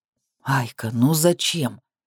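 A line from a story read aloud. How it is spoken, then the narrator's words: Mumbling. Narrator (Russian): бормочет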